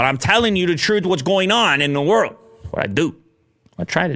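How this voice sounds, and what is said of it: Usual voice. Nothing is said of it.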